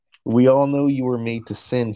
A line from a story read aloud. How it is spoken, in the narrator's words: he chuckled